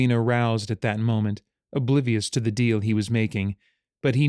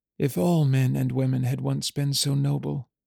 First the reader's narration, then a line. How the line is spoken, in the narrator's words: she murmured